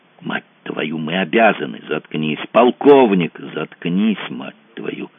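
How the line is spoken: Furious whisper. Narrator (Russian): бешеным шепотом прикрикнул Мазур

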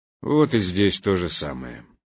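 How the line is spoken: Gloomy. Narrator (Russian): мрачно поделился я

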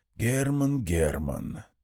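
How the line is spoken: Said hoarsely. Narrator (Russian): сипло произнес Глаз

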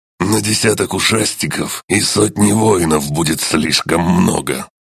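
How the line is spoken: Old man's snort. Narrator (Russian): хмыкнул старый вождь

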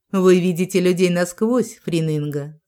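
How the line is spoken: Dry. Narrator (Russian): сухо сказал Эдвард

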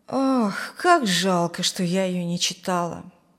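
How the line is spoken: Sighing. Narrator (Russian): вздохнула Зина

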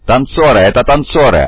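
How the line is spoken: Yelling over gunfire. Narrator (Russian): орал в коммуникатор Сенека, стараясь перекричать звуки выстрелов

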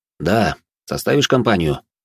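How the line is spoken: Plain. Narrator (Russian): спросил я

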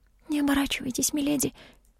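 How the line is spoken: Frightened whisper. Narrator (Russian): испуганно шепнула она

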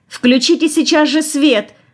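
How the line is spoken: Woman shouting. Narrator (Russian): крикнула Женя

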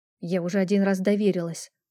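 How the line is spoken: Muttered with suppressed anger. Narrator (Russian): с трудом сдерживая злость, кипящую внутри, пробормотала я

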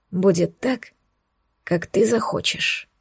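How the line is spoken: Anguished whisper. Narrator (Russian): шепнул с надрывом

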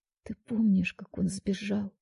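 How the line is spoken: Sobbing whisper. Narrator (Russian): всхлипывая, прошептала она

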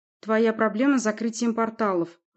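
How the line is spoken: Irritated, hurried explanation. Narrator (Russian): раздраженно и торопливо принялась она объяснять

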